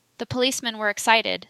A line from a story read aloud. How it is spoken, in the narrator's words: said he